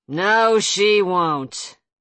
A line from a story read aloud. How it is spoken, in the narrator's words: Levi growled